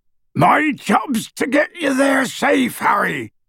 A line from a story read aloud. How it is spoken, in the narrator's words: bellowed Hagrid